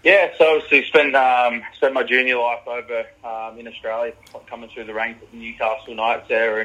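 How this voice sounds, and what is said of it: Australian accent. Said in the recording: “you speak a bit like me, so you got an Aussie accent.”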